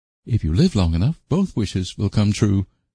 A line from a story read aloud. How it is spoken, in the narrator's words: said Anne calmly